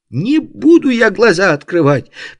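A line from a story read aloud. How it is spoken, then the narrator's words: Tearful shriek, young woman. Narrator (Russian): почти срываясь на слезы, взвизгнула девушка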